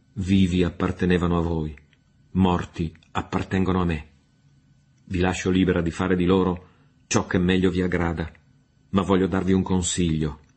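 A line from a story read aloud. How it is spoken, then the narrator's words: Broken but forceful voice. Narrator (Italian): disse ella con voce rotta ma energica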